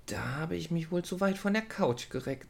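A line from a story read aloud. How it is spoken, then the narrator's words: Quiet, to herself. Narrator (German): sagte sie leise zu sich selbst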